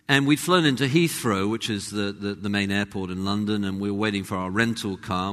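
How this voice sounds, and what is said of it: English accent. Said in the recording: “this is in an English accent, not Australian”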